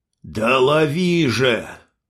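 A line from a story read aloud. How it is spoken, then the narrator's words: Angry bark, old man. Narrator (Russian): сердито рявкнул старик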